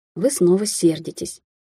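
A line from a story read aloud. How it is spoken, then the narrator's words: Quiet remark, suppressed smile. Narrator (Russian): тихо заметила Кэтлин, не в силах скрыть улыбку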